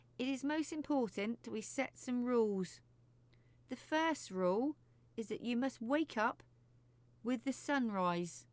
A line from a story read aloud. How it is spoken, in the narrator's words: she said sternly